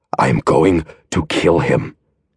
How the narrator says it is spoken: he swore in that low, rasping voice

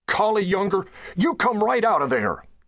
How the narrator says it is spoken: yelled John

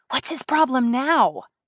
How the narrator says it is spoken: hissed Jane

